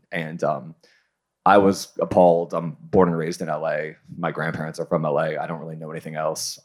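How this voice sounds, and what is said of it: Heavy vocal fry, creaky voice. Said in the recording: “I have the worst vocal fry and I say like too much.”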